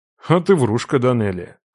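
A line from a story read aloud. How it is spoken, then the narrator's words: Snorting. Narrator (Russian): хмыкнул я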